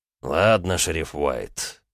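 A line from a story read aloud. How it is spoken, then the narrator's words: Heavy sigh. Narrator (Russian): маршал тяжело вздохнул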